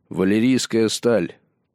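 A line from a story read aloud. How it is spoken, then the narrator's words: Solemn, proud proclamation. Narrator (Russian): провозгласил Джон торжественно, пытаясь показать подобающую случаю довольство и гордость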